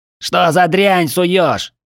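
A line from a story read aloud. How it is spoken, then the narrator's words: Short man yelling. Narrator (Russian): завопил коротышка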